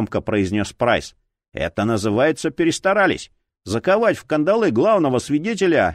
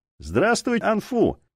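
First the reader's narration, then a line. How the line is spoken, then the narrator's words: Cheerful, ingratiating. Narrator (Russian): весело начал Прайс, желая расположить к себе угрюмого китайца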